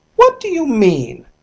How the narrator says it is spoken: cried Mrs

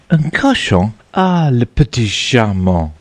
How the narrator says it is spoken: exclaimed Matilda with enthusiasm

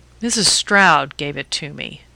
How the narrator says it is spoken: He answered slowly

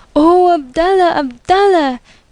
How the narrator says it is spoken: they cried

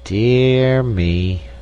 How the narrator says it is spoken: sighed the king

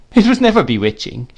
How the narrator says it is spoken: she said, laughing

